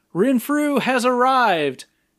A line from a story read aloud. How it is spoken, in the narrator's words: yells